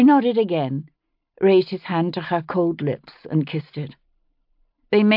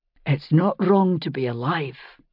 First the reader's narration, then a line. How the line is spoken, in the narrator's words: he said quietly